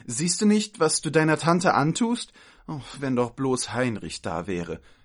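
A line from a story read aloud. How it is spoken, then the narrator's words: Sighing. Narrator (German): seufzte die eine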